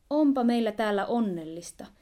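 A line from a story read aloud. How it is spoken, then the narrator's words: Exclaiming to each other. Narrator (Finnish): he huudahtelivat toisilleen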